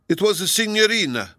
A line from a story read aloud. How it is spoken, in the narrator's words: cried Donatello joyfully